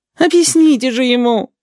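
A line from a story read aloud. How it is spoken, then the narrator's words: Twins moaning together. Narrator (Russian): стонали желтые близнецы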